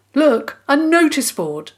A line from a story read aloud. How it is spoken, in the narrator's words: Dig called out